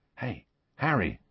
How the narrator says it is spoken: said Ron softly

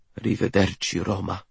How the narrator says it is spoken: I murmur

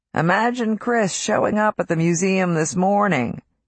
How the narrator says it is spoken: he said around a chuckle

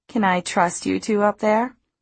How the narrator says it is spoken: she asked me teasingly

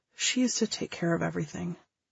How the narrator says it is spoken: his perpetual cheer slipped for a second, and he said, so quietly

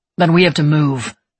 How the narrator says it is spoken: Levi said sharply

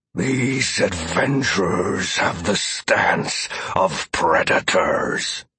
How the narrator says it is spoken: familiar warned me as he let out a low growl

